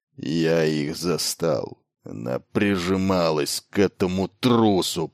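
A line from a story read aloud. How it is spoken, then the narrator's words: Growl. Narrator (Russian): прорычал Батари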